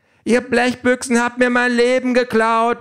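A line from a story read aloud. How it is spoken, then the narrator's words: Woman shouting. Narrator (German): ruft eine Frau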